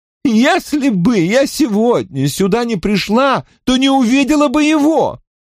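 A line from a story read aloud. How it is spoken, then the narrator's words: Fervent exclamation. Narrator (Russian): Горячо воскликнула она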